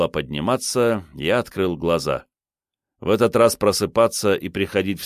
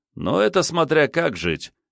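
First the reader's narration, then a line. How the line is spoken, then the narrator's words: Wry chuckle. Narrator (Russian): хмыкнул врач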